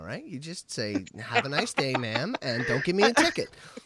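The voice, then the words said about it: Put-on white girl voice. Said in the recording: “gave me a white girl voice.”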